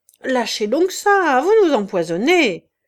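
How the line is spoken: Snickering. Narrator (French): Loubet, l'air farceur, ricanait

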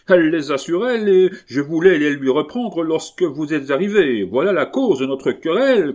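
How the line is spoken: Shouted. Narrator (French): cria Jean Taureau

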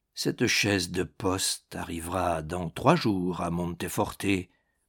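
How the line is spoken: Murmured. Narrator (French): murmura-t-il

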